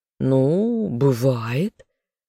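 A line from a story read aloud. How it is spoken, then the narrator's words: Condescending drawl. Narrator (Russian): снисходительно протянул демон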